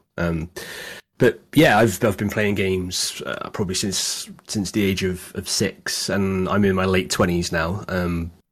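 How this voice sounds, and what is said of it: British accent. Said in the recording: “I'm from the UK. As you can probably tell from my accent”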